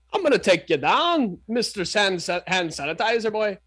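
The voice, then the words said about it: Convincing put-on Liverpool accent. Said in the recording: “Dude, you nailed it. That's a Liverpool accent to a T.”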